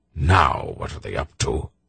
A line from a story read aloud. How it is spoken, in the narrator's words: Belgarath muttered